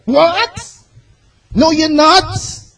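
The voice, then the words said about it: Loud, emotional preaching voice. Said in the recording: “my voice is loud.”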